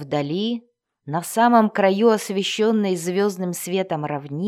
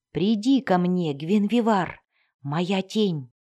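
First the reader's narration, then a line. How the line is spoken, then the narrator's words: Whisper. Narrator (Russian): прошептал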